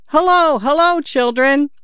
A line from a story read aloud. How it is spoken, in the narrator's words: He shouted